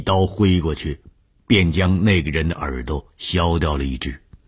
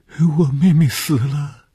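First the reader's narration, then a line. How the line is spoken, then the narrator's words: Crying girl. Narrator (Chinese): 这是一个可怜的女孩，见着红鱼便哭起来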